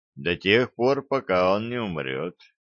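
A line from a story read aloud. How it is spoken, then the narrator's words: Spoke in level tone. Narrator (Russian): проговорил я ровным тоном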